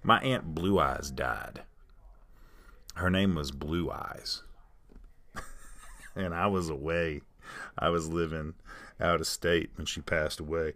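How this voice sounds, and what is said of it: Southern American accent. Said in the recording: “I'm from the southern part of the United States with my accent”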